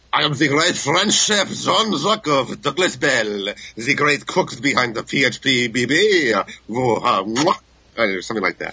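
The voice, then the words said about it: Put-on French accent. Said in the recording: “how bad was my French accent? ... That was good ... Actually, that was well done.”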